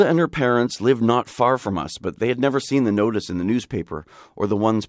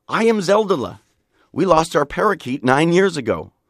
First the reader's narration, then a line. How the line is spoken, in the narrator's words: a girl named Zelda Rosen had exclaimed